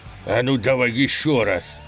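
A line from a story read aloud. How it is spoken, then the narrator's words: Thug's growl. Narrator (Russian): прорычал головорез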